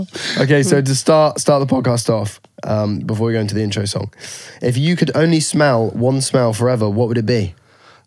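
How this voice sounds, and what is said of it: Rough, unwell-sounding voice. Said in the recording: “I sound terrible. ... You do sound like shit.”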